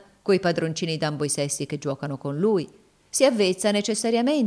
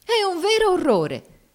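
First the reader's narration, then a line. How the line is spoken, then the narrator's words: Exclaimed. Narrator (Italian): esclamò Miss Ophelia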